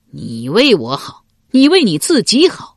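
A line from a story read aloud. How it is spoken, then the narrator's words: Cold sneer. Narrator (Chinese): 管仲冷笑一声说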